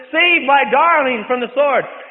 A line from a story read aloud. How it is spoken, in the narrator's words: cried out unto God and He says